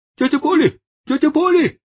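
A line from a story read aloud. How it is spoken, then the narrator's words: Breathless shouting. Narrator (Russian): закричал он, запыхавшись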